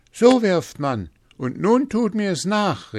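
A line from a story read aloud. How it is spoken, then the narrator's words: Shouted. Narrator (German): rief er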